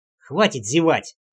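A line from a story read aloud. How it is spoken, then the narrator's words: Snapping retort. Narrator (Russian): огрызнулся я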